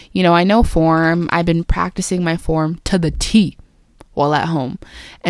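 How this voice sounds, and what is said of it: Unusually deep voice. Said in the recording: “doing this like deep voice thing”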